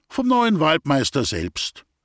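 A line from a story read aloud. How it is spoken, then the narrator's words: Doctor's dry reply. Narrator (German): gab der Arzt trocken zur Antwort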